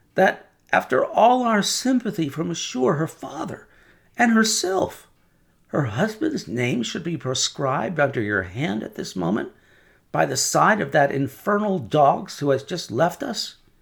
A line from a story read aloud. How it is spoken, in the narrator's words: said Defarge, rather pleading with his wife to induce her to admit it